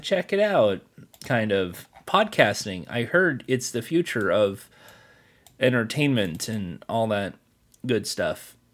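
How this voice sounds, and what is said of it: Tired, congested, stuffy-nosed voice. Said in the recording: “sorry for my voice... I'm a bit tired, and there's a bit of a snuffy nose”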